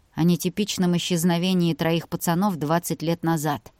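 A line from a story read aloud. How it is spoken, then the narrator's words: Grumbled. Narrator (Russian): буркнул Илья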